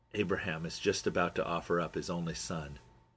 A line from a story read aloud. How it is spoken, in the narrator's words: he said in a lowered voice